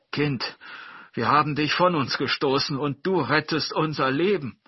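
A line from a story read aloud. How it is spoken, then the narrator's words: Father calling. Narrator (German): rief der Vater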